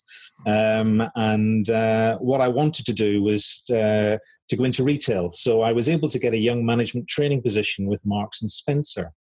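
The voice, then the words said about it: Northern Irish Belfast accent. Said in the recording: “as you can probably tell from my accent, I'm from Belfast.”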